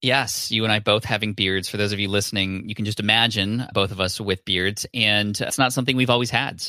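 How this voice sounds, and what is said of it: Usual voice. Nothing is said of it.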